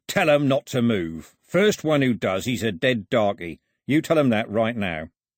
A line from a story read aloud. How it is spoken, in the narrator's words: growled